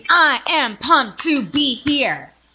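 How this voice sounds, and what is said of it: Peppy, cheerleader-like enthusiastic delivery. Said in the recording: “You sound like a cheerleader.”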